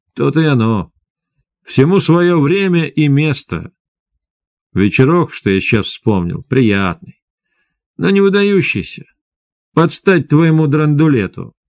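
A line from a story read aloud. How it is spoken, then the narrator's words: Soft laugh. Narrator (Russian): тихо засмеялась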